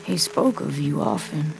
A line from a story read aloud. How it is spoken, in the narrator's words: the bullet catcher says, beyond the sound of rain, his voice almost apologetic